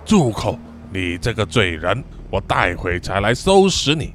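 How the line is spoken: Angry. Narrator (Chinese): 红胡子面有怒色，就对晒说

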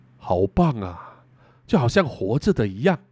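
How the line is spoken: Amazed. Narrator (Chinese): 久保田不禁惊叹地说

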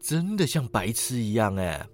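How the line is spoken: Admiring. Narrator (Chinese): 赞叹道

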